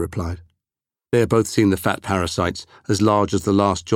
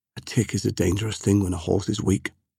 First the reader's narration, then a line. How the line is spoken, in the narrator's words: Temujin said softly